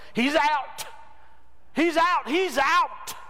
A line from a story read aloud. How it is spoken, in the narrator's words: The other team yelled